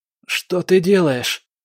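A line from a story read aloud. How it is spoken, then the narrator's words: Boy's muffled hoarse croak. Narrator (Russian): прохрипел мальчик сквозь зажатый рот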